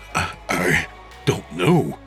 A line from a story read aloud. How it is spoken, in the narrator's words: he stammered